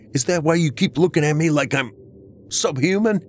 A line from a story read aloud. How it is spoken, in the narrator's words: I shouted at her